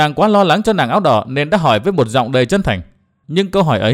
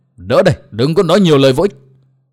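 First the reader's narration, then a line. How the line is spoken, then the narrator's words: Old man shouting loudly. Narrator (Vietnamese): Lão hét lớn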